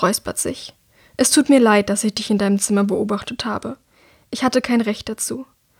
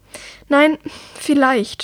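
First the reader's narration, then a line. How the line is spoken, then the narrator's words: Unsure stammering. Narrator (German): stottert Herrick, unsicher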